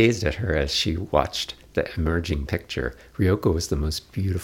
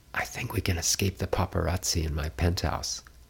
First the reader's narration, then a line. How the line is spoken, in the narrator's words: heaved a nervous sigh, then whispered to her